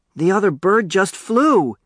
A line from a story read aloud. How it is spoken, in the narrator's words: yelled